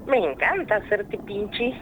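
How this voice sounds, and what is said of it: Witch character voice. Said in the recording (Spanish): “Tiene voz de bruja.”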